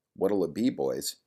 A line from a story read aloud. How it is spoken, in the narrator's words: Patty asked in an impatient tone